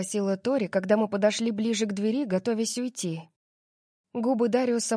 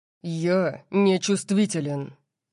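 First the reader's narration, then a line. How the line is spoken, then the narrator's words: Barked. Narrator (Russian): рявкнул Дариус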